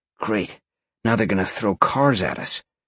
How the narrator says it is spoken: Sean grumbled

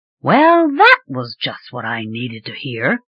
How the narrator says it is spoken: she muttered

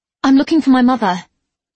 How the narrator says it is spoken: Anne said, or rather blurted

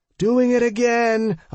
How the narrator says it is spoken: I yelled as loud as I could

